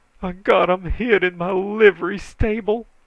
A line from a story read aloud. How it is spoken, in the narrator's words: he moaned